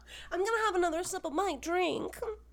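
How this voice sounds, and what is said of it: Dumb girl character voice. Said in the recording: “That's my stupid voice. ... That is my dumb girl voice.”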